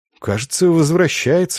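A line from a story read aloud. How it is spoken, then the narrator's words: Whisper. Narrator (Russian): шепнул лучник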